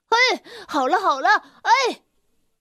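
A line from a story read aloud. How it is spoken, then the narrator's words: Shouting while chasing. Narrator (Chinese): 阿泽丁在他的后面一边追一边喊道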